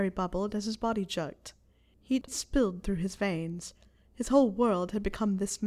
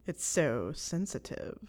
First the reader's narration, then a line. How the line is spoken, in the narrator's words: Snape chuckled